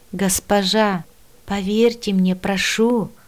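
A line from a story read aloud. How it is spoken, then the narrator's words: Calm reply. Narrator (Russian): спокойно откликнулся Мила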